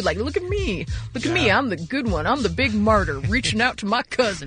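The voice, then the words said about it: Imitated voice with southern accent. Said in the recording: “Mike Love now has a southern accent.”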